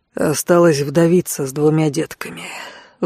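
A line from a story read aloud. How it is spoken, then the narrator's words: Sighing. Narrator (Russian): вздохнул Алан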